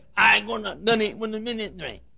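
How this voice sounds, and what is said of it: Exaggerated northern accent, mumbled speech. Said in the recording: “Maybe it was hair lip ... Maybe he had a cleft palate and that caused him to talk like that ... Maybe he was tongue-tied ... the worst impediment of speech known to mankind, a northern accent.”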